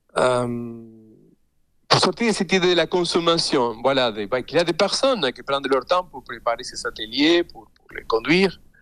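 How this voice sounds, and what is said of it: Non-native accent speaking French. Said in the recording (French): “je parle dans une langue qui n'est pas ma langue maternelle, donc j'ai un accent”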